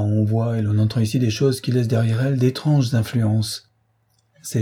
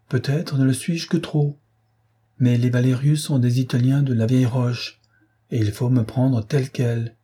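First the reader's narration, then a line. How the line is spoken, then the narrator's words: Exclaimed. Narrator (French): s'écria-t-il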